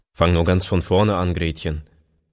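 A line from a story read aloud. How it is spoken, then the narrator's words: Plain. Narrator (German): sagte er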